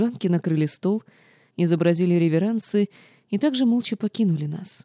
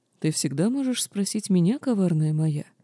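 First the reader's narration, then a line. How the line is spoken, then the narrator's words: Soft, gentle offer. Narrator (Russian): мягко предложил супруг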